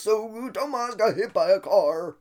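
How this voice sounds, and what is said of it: Imitates an elderly grandfather's voice. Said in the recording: “That's my grandpa impression.”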